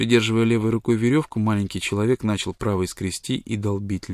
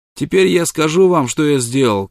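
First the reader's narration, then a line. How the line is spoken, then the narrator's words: Shouting downward. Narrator (Russian): крикнул он вниз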